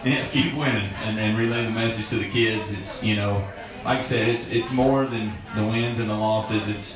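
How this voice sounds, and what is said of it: Thick American country accent. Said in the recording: “my country accent is probably a little thick for some folks”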